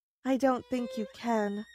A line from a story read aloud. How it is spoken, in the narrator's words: I said sadly